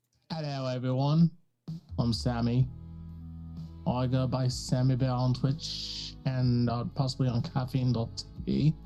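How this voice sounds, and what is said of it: Bad put-on Liverpool accent. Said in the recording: “I don't know what this accent is ... it was horrible ... He's from that Liverpool boy.”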